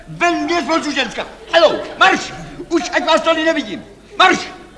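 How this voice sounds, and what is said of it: Shouting angrily. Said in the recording (Czech): “Nekřičte”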